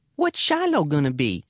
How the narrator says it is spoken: chirps Becky

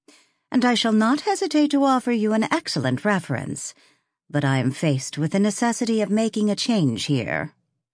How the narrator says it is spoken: Mary Grayson had told her calmly

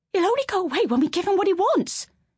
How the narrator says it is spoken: screeched

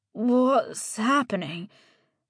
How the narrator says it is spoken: His words came out choked with drool

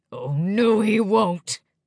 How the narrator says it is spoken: growled the man

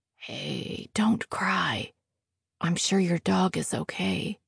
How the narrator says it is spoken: Jack says softly

